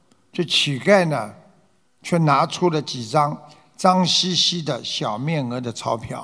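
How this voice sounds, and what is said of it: Usual voice. Nothing is said of it.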